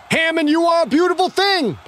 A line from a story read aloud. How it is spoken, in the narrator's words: Pine screamed